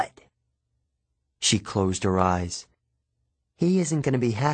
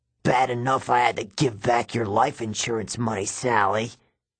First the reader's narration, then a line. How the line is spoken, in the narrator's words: he growled